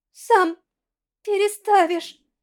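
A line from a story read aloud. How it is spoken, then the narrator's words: Strained, forced out. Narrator (Russian): Стискивая до боли кулаки, выдавила из себя Корона Долла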